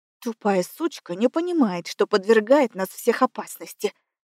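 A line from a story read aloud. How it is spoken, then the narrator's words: Thin lady hissing. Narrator (Russian): шипела сухопарая дама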